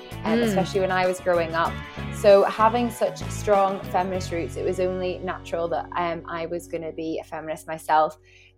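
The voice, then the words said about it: Northern Irish accent. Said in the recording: “I'm originally from Northern Ireland ... But I've still got my accent”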